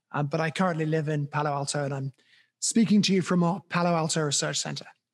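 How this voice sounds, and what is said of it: British accent. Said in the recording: “you definitely kept the accent ... There are many Brits over here”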